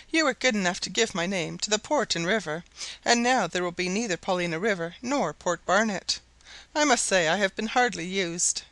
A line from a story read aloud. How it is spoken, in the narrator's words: Barnett, laughing